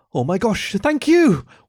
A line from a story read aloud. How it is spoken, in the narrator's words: Wendy cried